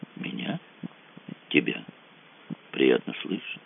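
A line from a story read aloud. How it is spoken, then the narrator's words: Quiet. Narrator (Russian): сказала Ольга тихо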